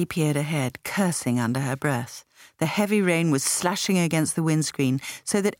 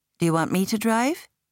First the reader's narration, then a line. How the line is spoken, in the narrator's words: Meredith asked